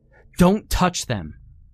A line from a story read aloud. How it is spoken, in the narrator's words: Peter suddenly shouted